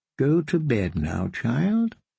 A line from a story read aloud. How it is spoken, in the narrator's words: the kindly man said